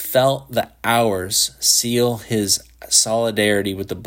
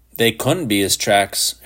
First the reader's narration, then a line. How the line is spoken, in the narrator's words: Shepard growled, infuriated